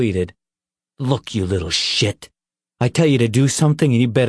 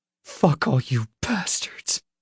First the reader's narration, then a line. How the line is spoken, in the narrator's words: he whispered